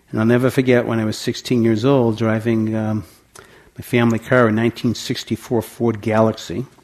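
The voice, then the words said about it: Boston accent. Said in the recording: “my voice that it has an accent from Boston”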